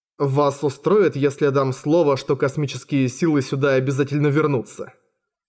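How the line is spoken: Plain. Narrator (Russian): спросил Джинта

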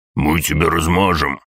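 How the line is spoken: Growled. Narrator (Russian): прорычал

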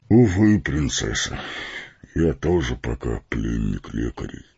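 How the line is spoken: Sad, smiling tone. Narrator (Russian): грустно улыбнулся Фарамир

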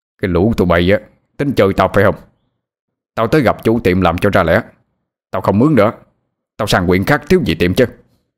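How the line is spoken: Furious roar. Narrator (Vietnamese): Ông Tỉnh tức giận gầm lên

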